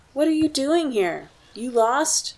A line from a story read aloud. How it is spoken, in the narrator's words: teenage boys, one of them called out